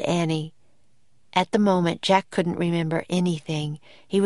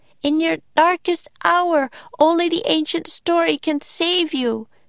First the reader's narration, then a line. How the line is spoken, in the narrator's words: cried Annie